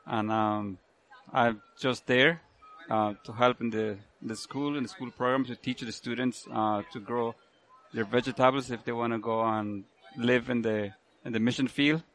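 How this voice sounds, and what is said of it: Thick Central American accent. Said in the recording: “it sounds like you have a pretty thick southern accent, but it sounds like it's coming from further south than Tennessee”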